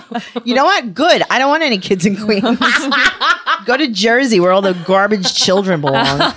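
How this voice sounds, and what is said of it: Noticeable regional accent. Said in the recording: “your accent”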